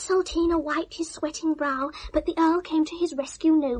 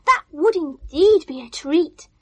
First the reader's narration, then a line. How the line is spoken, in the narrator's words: gasped